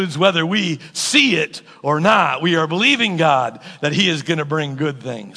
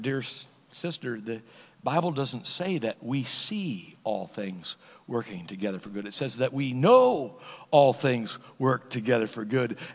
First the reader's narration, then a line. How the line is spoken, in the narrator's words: gently reminded her